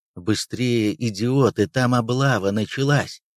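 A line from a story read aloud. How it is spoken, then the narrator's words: Gruff mutter. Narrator (Russian): буркнул полицай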